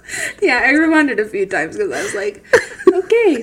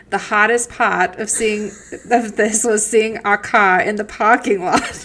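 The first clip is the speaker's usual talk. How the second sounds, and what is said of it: Put-on Boston accent. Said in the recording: “that is the most Boston sentence I've ever heard ... How was my impression?”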